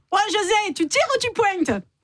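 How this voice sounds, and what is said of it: Imitates a pétanque player's voice. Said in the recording (French): “imitation ... un joueur de pétanque”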